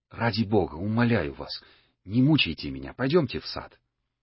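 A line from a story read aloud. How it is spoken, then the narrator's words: Agitated whisper. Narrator (Russian): Старцев ... сказал Екатерине Ивановне шепотом, сильно волнуюсь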